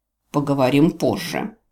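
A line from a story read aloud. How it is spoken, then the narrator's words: Curt, through gritted teeth. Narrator (Russian): бросил сквозь зубы канцлер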